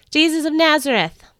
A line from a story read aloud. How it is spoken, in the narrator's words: one of the Roman guards shouted from behind me